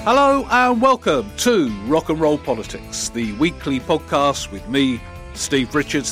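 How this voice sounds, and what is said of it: Silly put-on voice. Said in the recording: “I don't know why I'm doing it in a silly voice ... I did it in a silly voice”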